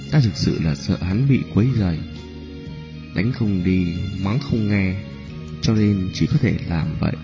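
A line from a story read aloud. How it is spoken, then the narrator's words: Embarrassed soft voice, woman. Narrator (Vietnamese): khuôn mặt Nhã Phi ửng đỏ, nói khẽ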